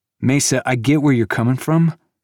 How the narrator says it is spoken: Cavalon said

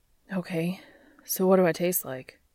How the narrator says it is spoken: he panted, dazzled by Cass's eyes gone hazy with desire

